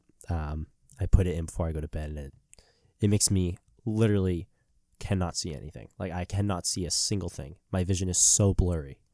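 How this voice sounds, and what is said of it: Slightly sick-sounding voice. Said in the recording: “I'm still slightly sick. I'm not feeling great. You can probably tell by my voice.”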